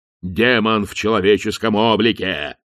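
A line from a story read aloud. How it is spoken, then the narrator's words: Growl. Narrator (Russian): прорычал он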